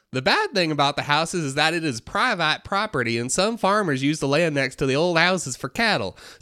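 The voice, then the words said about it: East Tennessee Southern accent. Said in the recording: “not just a Southern accent. It is specifically an East Tennessee, like, Sevierville accent.”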